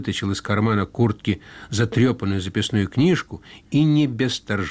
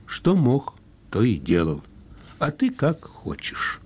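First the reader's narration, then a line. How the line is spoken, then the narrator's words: Sad, ironic. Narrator (Russian): Семин понял иронию и сказал грустно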